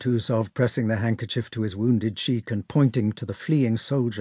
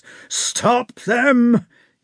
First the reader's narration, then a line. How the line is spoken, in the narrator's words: he shouted